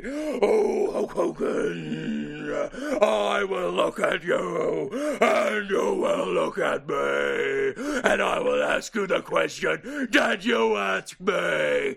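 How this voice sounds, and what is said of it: Ultimate Warrior impression. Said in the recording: “your Ultimate Warrior impersonation”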